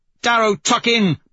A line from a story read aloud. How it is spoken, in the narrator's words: Mustang shouts